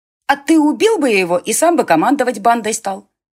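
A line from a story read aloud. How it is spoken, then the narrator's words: Shouting. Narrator (Russian): крикнула Ирма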